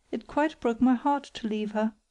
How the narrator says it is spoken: cried Margaret

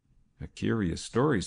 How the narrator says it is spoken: said Saul Arthur Mann dryly

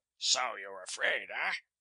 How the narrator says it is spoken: he sneered

